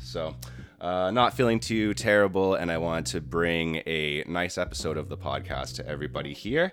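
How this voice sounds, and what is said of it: Sick-sounding voice. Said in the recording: “as you might be able to tell in my voice, I got a bit sick”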